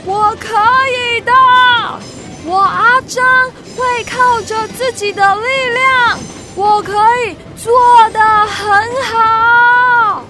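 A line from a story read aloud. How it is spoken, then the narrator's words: Shouting with all strength. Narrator (Chinese): 竭尽全身的力气，对着火车大声的叫说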